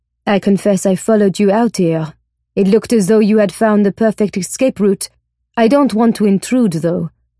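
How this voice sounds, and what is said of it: French accent, guttural R, dropped H. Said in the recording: “His accent is good, but not perfect. There is a telltale guttural sound of the R, the dropping of the H. A Frenchman”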